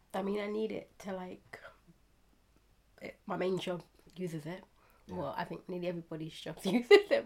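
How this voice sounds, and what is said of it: Voice sounds affected by a cold. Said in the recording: “Getting over a cold, so my voice is going to sound a little bit different”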